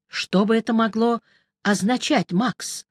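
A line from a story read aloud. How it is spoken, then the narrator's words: Plain. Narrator (Russian): спросил он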